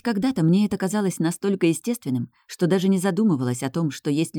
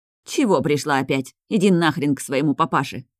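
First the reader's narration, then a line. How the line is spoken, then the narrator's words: Dry, suddenly calm mother. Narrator (Russian): сухо говорит мама, как-то неожиданно успокаиваясь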